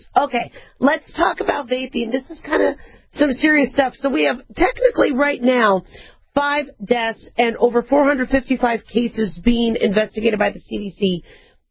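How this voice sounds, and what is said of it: Hoarse, strained voice. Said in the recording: “I lost my voice. ... But I'm sorry I lost my voice.”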